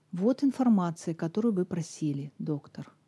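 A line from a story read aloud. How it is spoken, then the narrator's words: Even, flat voice. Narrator (Russian): сказала она ровным голосом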